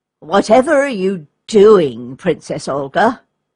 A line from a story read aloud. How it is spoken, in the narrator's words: grumbled Ivan